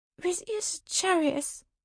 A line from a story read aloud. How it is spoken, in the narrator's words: I squeaked